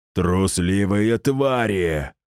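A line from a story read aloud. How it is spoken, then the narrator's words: Furious roar. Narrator (Russian): взревел он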